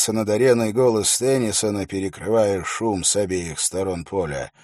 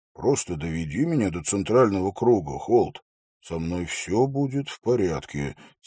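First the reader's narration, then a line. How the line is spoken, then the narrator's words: Quiet. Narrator (Russian): тихо произнес Хорос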